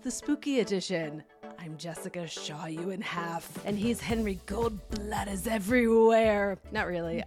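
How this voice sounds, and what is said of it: Deep spooky voice. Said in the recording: “I'm so impressed with your spooky voice. I don't think my voice goes deep enough to make that happen credibly.”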